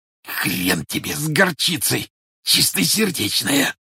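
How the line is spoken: Hoarse wheeze. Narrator (Russian): просипел арестованный

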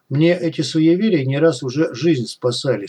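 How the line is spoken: Calm objecting cat. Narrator (Russian): спокойно возразил кот

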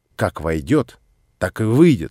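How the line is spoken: Stern. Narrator (Russian): строго произнес я

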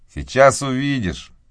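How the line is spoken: Plain. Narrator (Russian): ответил Том

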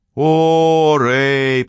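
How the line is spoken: Drawn-out drawl. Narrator (Russian): протянул я

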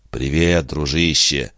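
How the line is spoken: Affectionate. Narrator (Russian): ласково сказал Диодонат

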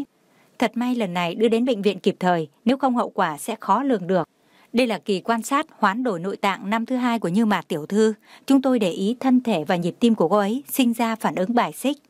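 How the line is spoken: Reluctant smiling speech. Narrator (Vietnamese): bất đắc dĩ, miễn cưỡng mỉm cười nói

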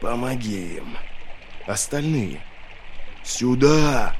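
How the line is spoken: Weak rasp. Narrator (Russian): маг ... прохрипел

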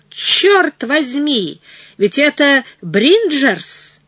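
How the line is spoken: Heated exclamation. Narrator (Russian): воскликнул с сердцем

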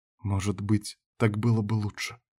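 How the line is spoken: Quiet. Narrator (Russian): тихо ответила Карин

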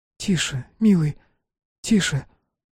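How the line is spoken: Breathed softly. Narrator (Russian): выдохнула Лукерья

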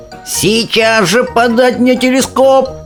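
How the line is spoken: Shouted. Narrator (Russian): закричал Шустер

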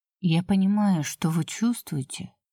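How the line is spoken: Quiet. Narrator (Russian): тихо сказала

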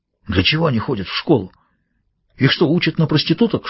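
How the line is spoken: Whisper. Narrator (Russian): шепнул Кусанаги

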